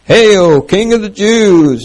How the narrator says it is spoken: mocking him

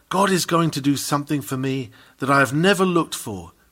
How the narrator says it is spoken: He who whispers to himself

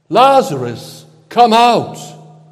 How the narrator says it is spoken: called out in a loud voice

